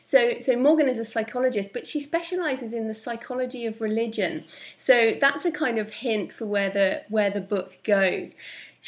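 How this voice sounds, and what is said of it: English accent. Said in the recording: “you might be able to tell from my accent, I'm English”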